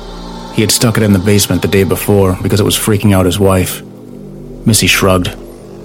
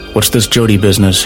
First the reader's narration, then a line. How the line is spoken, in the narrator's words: he asked